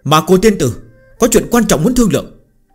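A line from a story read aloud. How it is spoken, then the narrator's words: Powerful shout from outside. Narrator (Vietnamese): bên ngoài có một thanh âm hùng hồn quát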